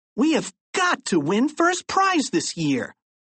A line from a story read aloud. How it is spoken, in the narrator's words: exclaimed Harold